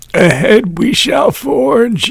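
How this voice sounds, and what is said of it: Put-on old man voice. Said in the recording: “That was my old man voice.”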